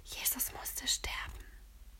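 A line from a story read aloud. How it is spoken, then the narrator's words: Whispering. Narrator (German): flüstert Lotta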